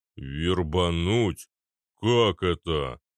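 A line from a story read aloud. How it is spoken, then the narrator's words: Low booming drone. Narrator (Russian): прогудел Арнольд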